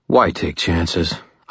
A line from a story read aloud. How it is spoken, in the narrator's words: I muttered